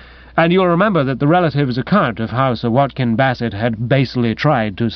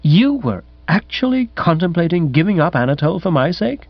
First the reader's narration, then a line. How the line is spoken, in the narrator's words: gasped